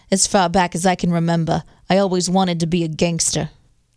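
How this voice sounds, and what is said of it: Poor Goodfellas gangster impression. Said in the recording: “That was a horrible impression.”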